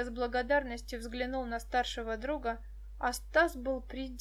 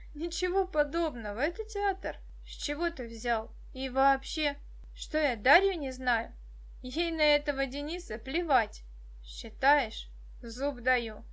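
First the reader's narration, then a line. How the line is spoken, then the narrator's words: Laughing. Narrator (Russian): рассмеялся Стас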